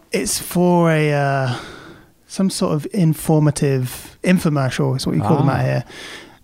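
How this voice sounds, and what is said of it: British English accent. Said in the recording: “you got to milk that British accent”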